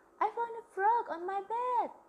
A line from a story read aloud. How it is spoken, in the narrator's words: I yelled out